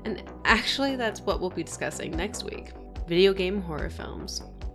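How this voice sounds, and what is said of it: Congested voice with sniffles. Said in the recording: “Sorry if you hear the sniffles, I have a little bit of a cold.”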